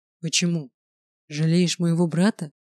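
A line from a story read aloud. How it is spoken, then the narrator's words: Hoarse breathy exhale. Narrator (Russian): хрипло выдохнул Грайнер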